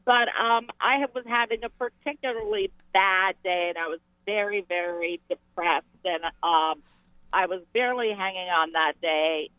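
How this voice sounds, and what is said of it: Hoarse voice from laryngitis. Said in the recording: “Excuse my voice. I'm getting laryngitis”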